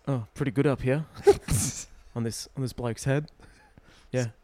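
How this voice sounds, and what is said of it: Chris Hemsworth impression. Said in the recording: “your impersonation of Chris Hemsworth being a hat ... Spot on.”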